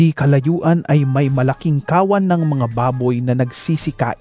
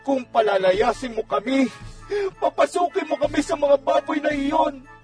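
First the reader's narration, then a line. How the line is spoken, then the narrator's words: Demons pleading. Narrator (Tagalog): Nakiusap sa kanya ang mga demonyo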